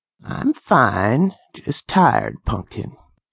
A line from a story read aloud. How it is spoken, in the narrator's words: rasped